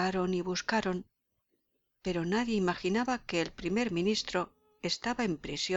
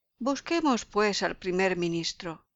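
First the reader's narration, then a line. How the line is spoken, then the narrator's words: Exclaimed. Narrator (Spanish): Otro exclamó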